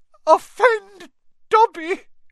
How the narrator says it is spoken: choked the elf

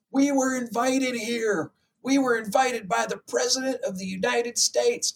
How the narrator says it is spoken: Dude screams

